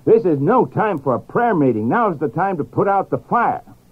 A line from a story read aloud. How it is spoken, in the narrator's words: Moody, who was himself a great man of prayer, shouted back